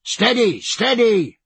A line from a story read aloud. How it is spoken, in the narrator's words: roared Jack